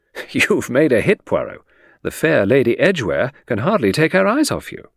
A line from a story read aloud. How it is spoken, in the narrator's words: I remarked with a chuckle